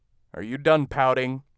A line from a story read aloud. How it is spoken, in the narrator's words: Ed asked